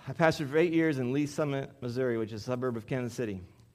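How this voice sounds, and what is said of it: Strained, failing voice. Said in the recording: “I'm about ready to lose my voice, so I'm going to put this cough drop in my mouth.”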